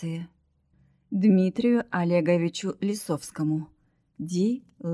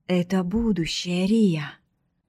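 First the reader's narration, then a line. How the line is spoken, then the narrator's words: Happy exhale. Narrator (Russian): счастливо выдохнул Дилер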